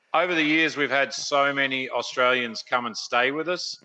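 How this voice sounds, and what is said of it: Australian accent. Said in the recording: “I like that accent, too, man. Is that Australian? ... It started as an Australian accent”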